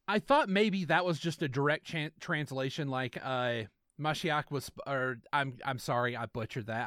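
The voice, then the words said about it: Southern American accent. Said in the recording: “my shitty southern accent”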